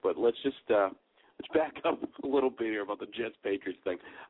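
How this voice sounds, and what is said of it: Sick-sounding voice. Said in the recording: “I don't have my radio voice. My son managed to get me sick.”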